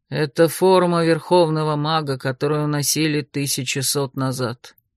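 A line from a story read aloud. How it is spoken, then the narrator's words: Sad. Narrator (Russian): печально покачал головой Лер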